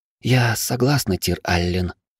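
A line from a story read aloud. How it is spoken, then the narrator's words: Barely audible, strained. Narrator (Russian): еле слышно выдавила девушка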